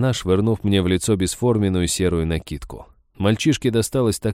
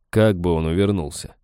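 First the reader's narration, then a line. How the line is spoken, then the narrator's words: Snorting. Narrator (Russian): хмыкнул я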